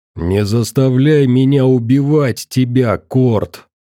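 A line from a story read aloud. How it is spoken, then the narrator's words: Growled. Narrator (Russian): прорычал сталкер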